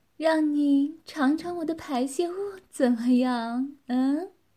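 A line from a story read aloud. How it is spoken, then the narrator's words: Woman teasing. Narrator (Chinese): 女子调笑地说道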